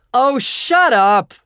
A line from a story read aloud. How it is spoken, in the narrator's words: I bellowed back, getting a little high myself, but still rather furious about her telling me I made most of the garbage